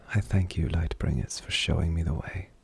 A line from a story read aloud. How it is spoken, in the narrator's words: whispered under her breath